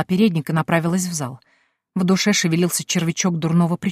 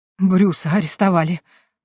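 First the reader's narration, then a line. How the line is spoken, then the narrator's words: Breathless, dowager duchess. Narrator (Russian): выдохнула вдовствующая герцогиня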